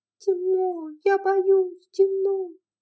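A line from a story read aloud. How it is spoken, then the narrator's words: Sniffling whimper, barely intelligible. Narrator (Russian): Уэйд засопел носом, расхныкался, и Скарлетт с трудом разобрала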